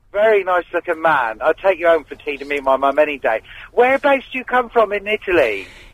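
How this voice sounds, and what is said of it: Cornish accent. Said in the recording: “I have a Cornish accent”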